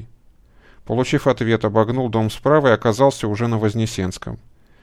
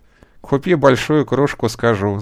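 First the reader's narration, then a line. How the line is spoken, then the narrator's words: Laughing young man. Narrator (Russian): засмеялся парень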